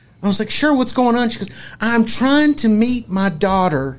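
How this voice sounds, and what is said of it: Usual voice. Nothing is said of it.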